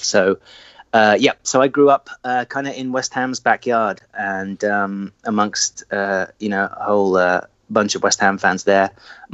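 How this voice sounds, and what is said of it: English Essex accent. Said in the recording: “clearly, with your accent, I don't believe that you were born here in the States ... I am from Essex in the UK.”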